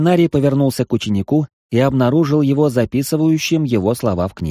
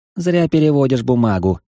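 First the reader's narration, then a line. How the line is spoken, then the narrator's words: Dismissive scoff. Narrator (Russian): хмыкнул учитель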